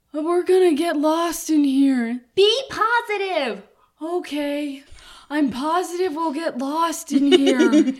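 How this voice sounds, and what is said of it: Imitates animated film character voices. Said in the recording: “you do the voices ... That's pretty good.”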